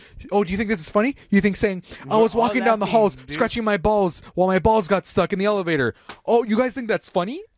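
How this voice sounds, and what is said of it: Angry yelling. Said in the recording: “she's yelling this at me”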